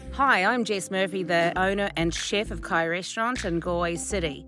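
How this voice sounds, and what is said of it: New Zealand accent. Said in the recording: “you can tell by the accent I'm not Australian ... started off in New Zealand”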